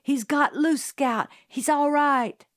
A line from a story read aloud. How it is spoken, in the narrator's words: Jim cried